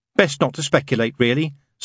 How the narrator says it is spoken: said Aziraphale

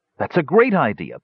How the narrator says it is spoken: Parian exclaimed

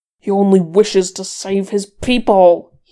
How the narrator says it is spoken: he snarled

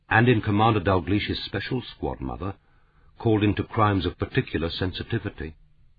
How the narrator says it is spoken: His father had said quietly

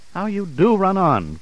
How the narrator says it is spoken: cried Mother

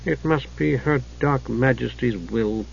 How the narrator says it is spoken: the Night Lord muttered

